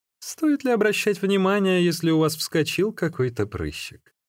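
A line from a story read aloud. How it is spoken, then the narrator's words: Laughing speech. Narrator (Russian): смеясь, сказал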